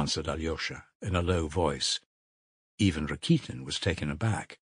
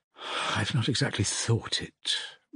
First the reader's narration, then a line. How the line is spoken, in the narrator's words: muttered Alyosha